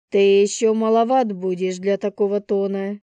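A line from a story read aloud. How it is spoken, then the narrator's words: Rude, harsh. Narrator (Russian): грубо произнесла тетя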